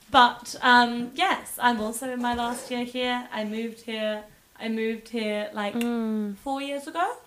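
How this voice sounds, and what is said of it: Slightly softened British accent. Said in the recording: “I am the British half of the show, as you may detect, although apparently my accent's relaxed a bit.”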